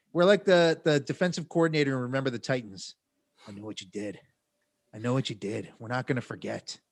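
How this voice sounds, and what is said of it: Vague put-on Irish accent. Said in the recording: “Why am I talking with a vague Irish accent?”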